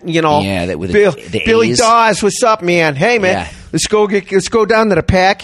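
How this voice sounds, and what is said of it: Put-on Chicago-style accent. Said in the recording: “there was a lot of Polish accents, so I'm guessing a lot of people were from Chicago because they kind of had that”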